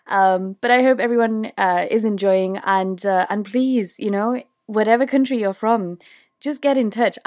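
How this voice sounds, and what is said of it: British accent. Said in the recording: “I'm from the UK ... my awful British accent”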